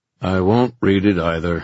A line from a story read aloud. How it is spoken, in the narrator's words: he said irritably